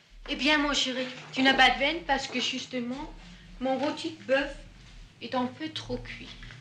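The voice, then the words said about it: Danish accent speaking French. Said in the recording (French): “là, on entend son accent, elle est née au Danemark”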